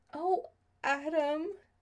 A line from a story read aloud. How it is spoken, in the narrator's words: she said, more than a little choked up